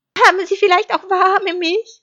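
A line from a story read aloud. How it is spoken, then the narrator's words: Calling out. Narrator (German): rief Schaf zu den Wänden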